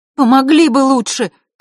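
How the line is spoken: Shouted. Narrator (Russian): крикнула им Василиса

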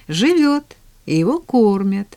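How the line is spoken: Cheerful interjection. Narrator (Russian): весело вмешалась в разговор миссис Кэррию

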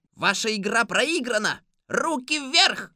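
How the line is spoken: Startled boy shouting. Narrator (Russian): Мальчик с пакетом от неожиданности вздрогнул, закричал

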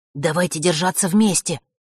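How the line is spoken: Wary whisper. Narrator (Russian): прошептал Ник, опасливо оглядываясь по сторонам

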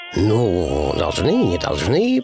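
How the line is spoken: Drawling. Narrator (Russian): протянул Пэтсон

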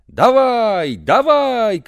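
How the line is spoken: Crowd shouting. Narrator (Russian): кричали болельщики

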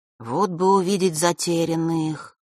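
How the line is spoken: Sudden drawl. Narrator (Russian): вдруг протянул Ник

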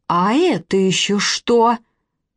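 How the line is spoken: Menacing. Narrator (Russian): продолжала грозно Вероника Владимировна

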